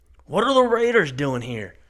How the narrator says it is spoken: Kip yells out over the peppered gunfire

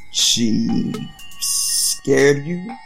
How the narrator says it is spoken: He asked slowly

